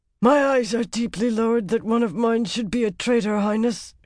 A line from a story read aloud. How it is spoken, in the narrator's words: said hoarsely